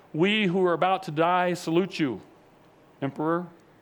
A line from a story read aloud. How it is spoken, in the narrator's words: together they stood and yelled